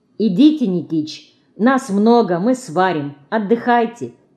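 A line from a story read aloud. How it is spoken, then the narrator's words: Plain. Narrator (Russian): говорит старику Марина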